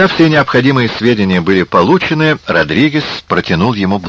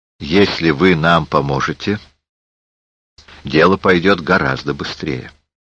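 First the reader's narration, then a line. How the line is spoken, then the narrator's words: Calm remark. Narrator (Russian): Эйнсли спокойно бросил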